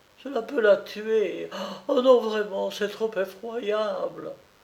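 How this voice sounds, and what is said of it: Voice broken by sobs. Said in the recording (French): “d'une voix entrecoupée par les sanglots”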